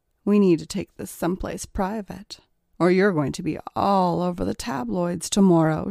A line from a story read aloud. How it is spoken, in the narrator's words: she purred